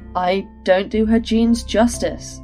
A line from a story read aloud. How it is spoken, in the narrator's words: Micah laughed